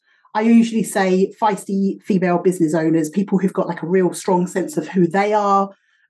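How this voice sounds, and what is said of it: British accent. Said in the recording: “I am not from here originally, as you can probably tell by my accent... I'm from the UK originally”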